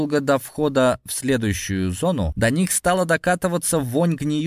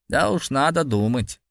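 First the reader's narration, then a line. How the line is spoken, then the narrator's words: Grumble. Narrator (Russian): проворчал Сергей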